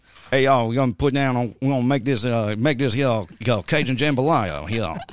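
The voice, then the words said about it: Exaggerated put-on Cajun accent. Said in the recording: “some Cajun dude, which I can't tell if he's just putting on the accent... which I can't do accents really well, so that was a weird foghorn, leghorn, like.”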